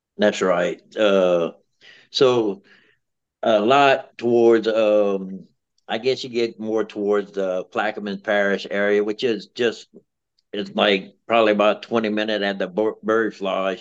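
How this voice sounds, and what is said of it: Louisiana Cajun accent. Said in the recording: “we got a different type of Cajun up in here ... your dialect is a little different than ours”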